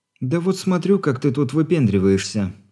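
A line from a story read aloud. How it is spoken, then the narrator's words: Completely calm. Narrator (Russian): совершенно спокойно ответила Алина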